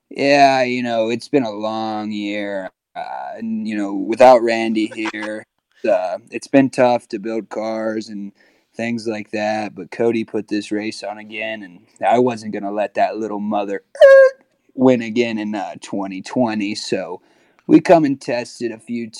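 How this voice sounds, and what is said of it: Impression of Scott Blomquist. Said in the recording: “give me a good Scott Blomquist. You know, you're good at that. Give me an impersonation ... my best Scott Blomquist”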